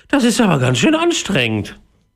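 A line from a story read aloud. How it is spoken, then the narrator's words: Panting. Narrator (German): keuchte Jakob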